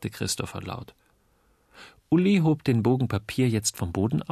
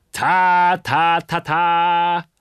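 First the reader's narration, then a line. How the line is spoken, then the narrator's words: Trumpeting. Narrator (German): trompetete Christopher und rief laut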